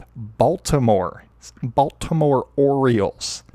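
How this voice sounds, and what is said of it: Slow, deliberate speech. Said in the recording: “saying that slowly”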